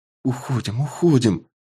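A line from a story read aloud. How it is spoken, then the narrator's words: Frightened whisper. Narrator (Russian): испуганно шептала Милли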